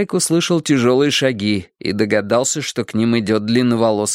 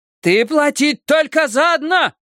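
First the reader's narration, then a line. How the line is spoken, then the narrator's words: Shouting. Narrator (Russian): кричала мама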